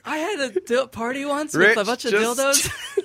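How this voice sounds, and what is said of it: Imitates another person's voice. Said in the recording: “As uncanny as that impersonation may be ... vocal impressionist ... mimic extraordinaire”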